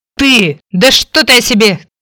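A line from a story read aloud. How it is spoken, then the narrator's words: Growling. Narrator (Russian): зарычал Фрэнки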